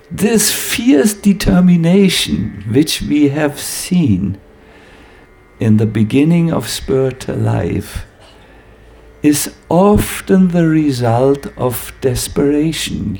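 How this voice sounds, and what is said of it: Imitates a Hare Krishna swami's speech. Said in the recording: “I will talk like a Hare Krishna Swami now, from this moment.”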